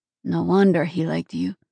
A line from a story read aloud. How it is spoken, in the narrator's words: he muttered